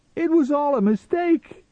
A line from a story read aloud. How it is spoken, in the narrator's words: he pleaded